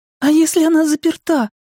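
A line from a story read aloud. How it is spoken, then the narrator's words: Squeak. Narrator (Russian): пискнула Беверли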